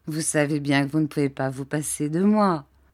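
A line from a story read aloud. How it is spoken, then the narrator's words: Laughing aunt. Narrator (French): dit ma tante en riant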